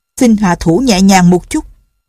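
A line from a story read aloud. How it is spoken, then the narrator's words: Hurried shout. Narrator (Vietnamese): Hướng Vấn Thiên vội la lên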